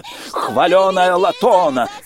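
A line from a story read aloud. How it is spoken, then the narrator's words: Shouting like a market vendor. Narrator (Russian): кричала она, словно торговка на воскресном рынке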